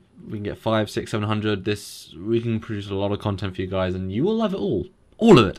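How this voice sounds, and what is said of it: British accent. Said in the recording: “you got that British accent”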